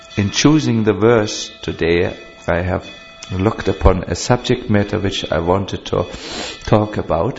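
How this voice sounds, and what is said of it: Strong German accent. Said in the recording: “My mother tongue is not English ... my English is a little faulty. It will have a very strong German accent.”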